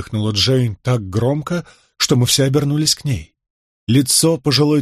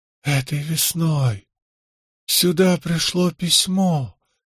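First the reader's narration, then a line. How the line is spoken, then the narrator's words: Barely audible whisper. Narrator (Russian): едва слышно прошептала она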